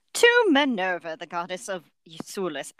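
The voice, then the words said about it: Bad attempt at British accent. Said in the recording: “I'm not going to do a British accent, that was just bad.”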